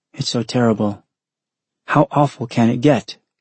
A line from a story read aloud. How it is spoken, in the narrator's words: Noriko said in a hoarse voice